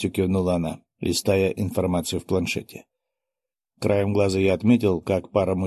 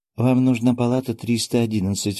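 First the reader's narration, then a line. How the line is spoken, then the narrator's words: Cheerful clinic employee announcing. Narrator (Russian): радостно озвучила сотрудница клиники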